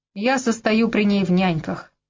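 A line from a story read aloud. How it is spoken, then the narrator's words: Muttering. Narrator (Russian): пробурчал он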